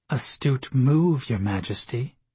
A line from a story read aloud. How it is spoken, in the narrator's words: Leah said under her breath